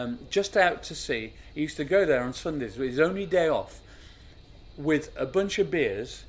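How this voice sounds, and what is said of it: Usual voice. Nothing is said of it.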